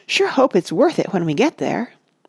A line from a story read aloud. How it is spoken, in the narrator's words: and Cuffy, her neat gray hair caught up in self-locks, gasped